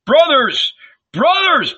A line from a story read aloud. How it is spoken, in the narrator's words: shouted